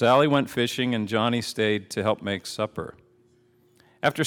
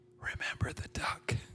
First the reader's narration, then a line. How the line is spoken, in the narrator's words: she whispered to him